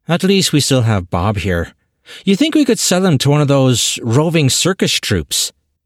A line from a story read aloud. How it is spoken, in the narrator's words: Barry gave a defeated grumble